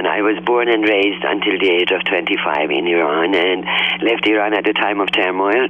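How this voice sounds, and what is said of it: Smoky, sexy voice with foreign accent. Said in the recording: “I love the accent. I love the voice. It's like that smoky, sexy girl, how you doing kind of a thing.”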